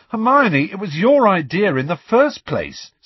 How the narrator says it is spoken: said Ron indignantly

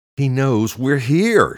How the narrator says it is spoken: she shouted

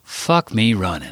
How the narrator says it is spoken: sighed, too tired to fight

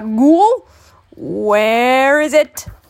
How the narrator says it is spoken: The old man hollered out

